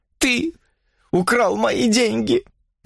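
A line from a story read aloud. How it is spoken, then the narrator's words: Sobbing. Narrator (Russian): всхлипывала она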